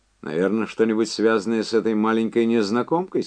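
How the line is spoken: Plain. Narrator (Russian): сказал он

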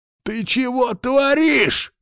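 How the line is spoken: Roar. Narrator (Russian): взревел

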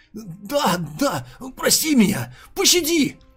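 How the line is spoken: Frightened bleating. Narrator (Russian): Испуганно блеял Сокун Цзюэ

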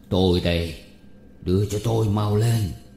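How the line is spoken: Hoarse voice. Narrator (Vietnamese): tiếng nói khàn khàn

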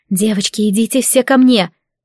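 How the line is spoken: Whispering. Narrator (Russian): Шепнула

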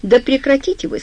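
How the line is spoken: Plain. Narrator (Russian): сказал Сью

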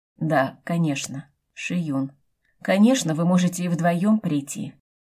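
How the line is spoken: Glum. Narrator (Russian): как-то уныло ответил Джан

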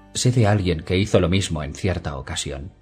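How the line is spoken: Plain. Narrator (Spanish): dijo Dani

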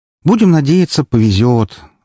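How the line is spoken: Sighing. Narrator (Russian): вздохнула Эльсийка

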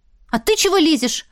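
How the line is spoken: Snapping back. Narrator (Russian): огрызнулась

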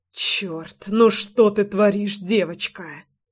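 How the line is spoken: Hoarse wheezing. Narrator (Russian): хрипел он

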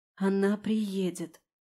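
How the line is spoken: Whispering under breath. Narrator (Russian): шепнула я себе под нос

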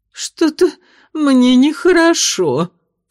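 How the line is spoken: Sobbing. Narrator (Russian): всхлипнула мисс Пруденс

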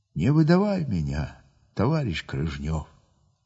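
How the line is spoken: Quiet speech. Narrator (Russian): по голосу взводный тихо так говорит

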